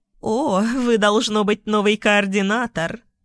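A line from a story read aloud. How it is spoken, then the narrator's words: Joyful woman's voice. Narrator (Russian): радостно произнесла женщина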